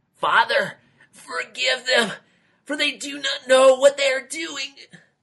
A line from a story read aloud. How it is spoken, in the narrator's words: Justice gasped out